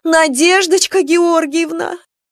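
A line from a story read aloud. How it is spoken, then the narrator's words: Yelling. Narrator (Russian): Лариса Ильинична завопила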